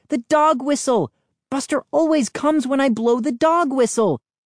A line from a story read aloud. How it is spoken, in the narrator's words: I cried